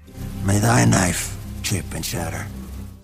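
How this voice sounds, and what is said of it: Stellan Skarsgård impression. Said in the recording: “he's doing a Stellan Skarsgård impression”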